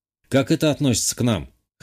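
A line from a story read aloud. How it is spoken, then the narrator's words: Scoffing grunt. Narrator (Russian): хмыкнул я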